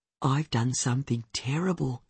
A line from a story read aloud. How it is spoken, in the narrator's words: she whispers